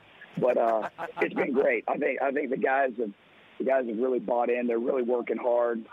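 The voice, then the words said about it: Hoarse, nearly lost voice. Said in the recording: “I've lost my voice”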